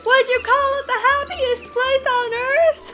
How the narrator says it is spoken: From a distance, you hear Pip scream

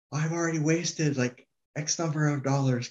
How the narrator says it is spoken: this woman started swearing at me and yelling

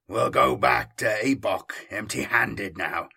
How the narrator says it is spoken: the traitor marine spat

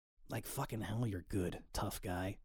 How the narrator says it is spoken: mutters half to himself

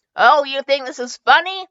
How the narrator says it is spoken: yelled into the dark passage

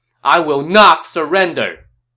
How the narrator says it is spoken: Ju Shou, probably expecting this, shouted the moment he saw Cao Cao

